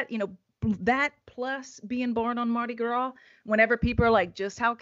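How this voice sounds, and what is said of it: Thick Cajun Louisiana accent. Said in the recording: “most Cajun place on earth ... you'll probably hear it in my thick accent”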